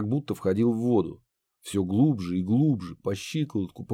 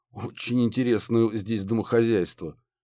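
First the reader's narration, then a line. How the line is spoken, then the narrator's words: Professor's amused snort. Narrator (Russian): хмыкнул профессор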